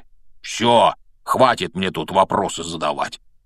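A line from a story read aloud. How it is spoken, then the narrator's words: Grumbling. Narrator (Russian): проворчал Хагрид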